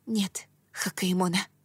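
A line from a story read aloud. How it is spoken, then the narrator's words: Whisper. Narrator (Russian): прошептала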